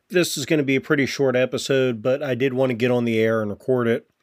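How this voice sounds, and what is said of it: Sick-sounding voice. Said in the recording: “I'm still sick. You can probably hear that in my voice.”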